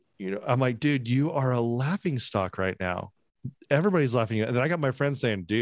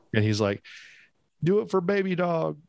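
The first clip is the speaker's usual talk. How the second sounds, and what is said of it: Imitated West Virginian accent. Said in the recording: “those West Virginians ... I'm not really making fun of your accent. This is just his accent.”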